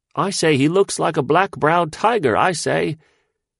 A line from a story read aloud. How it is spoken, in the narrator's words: one man, who was more waggish than the others, cried out in a squeaky high voice